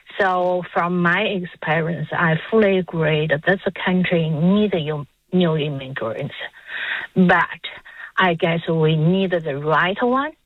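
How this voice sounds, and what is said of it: Speaks with an immigrant's accent. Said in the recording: “as you can hear, I have the accent. So myself is an immigrant”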